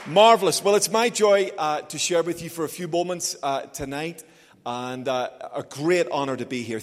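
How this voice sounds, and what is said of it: Belfast accent, slightly anglicized. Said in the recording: “I know I talk funny as well. So the accent is originally from Belfast, although I've spent most of my working life in England, so slightly modified.”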